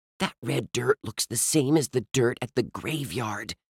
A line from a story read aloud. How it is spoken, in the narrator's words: Ruth Rose whispered